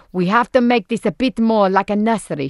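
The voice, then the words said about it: Put-on Spanish accent. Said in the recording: “She's Spanish. That's a Spanish accent.”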